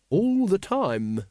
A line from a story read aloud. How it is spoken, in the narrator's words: said Once